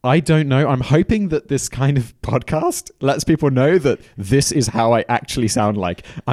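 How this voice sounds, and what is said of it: British accent. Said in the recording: “Why does ... accent sound so fake? ... put on a fake British accent”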